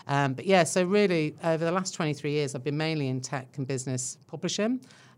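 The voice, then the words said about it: English accent with Irish mix. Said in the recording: “you can tell by my accent ... that I'm not Kiwi ... originally from England, Irish parents, so a good old mix going on in there”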